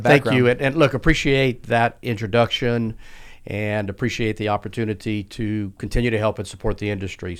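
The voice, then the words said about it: Regional accent, not Houston. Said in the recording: “that accent you have is not Houston based”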